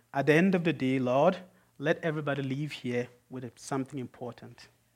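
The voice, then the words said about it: Foreign accent. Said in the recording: “I speak with a foreign accent”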